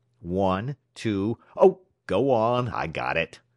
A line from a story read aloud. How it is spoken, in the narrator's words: exclaimed Iowa angrily